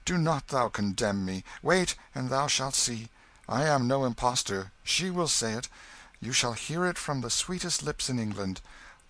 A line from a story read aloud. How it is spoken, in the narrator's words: cried Hendon, colouring slightly